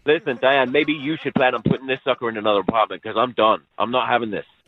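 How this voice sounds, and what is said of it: Noticeable accent. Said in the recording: “I thought your accent was charming early on, but now, kind of annoying.”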